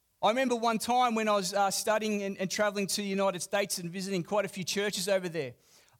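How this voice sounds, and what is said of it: Speaker's own foreign accent. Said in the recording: “I'd often say, g'day. And some picked up on my accent”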